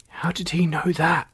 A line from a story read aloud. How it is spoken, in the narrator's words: he whispered, although everyone heard him as Frog didn't know the meaning of whispering